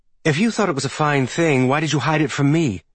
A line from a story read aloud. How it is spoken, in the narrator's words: Thisbe snapped